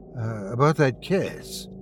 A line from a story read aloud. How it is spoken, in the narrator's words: Marcus said nervously